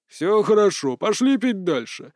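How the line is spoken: Deep, delighted voice. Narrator (Russian): забасил явно обрадованный граф

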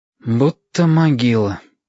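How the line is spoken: Sigh. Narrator (Russian): вздохнул Стасик

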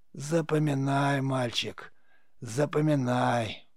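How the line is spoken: Hissing into ear. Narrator (Russian): прошипел корга прямо в ухо

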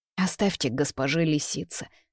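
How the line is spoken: Sad. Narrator (Russian): грустно говорю

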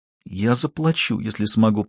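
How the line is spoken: Whisper. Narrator (Russian): прошептала Хейзел

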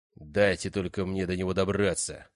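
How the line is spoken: Thunderous growl. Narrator (Russian): прорычал громобой

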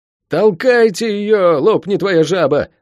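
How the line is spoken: Yelled. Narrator (Russian): заорал Лук

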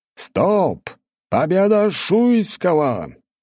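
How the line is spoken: Loud shout. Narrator (Russian): громко закричал судья

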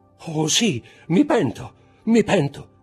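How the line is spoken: Shouted. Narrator (Italian): gridò Danglar

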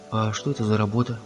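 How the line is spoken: Plain. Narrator (Russian): спросил Том

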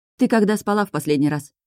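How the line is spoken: Stern question. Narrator (Russian): спрашиваю строго

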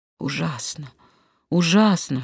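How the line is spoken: Whispering. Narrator (Russian): шептал он

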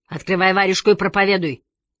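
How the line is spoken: Barking. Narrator (Russian): рявкнул тот

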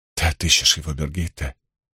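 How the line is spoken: Very quiet. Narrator (Russian): Она говорила очень тихо

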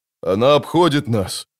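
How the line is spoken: Breathless exhale. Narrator (Russian): выдохнул Бореас Мун

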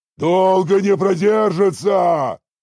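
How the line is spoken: Shouting over battle noise. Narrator (Russian): прокричал Орочи сквозь грохот боя

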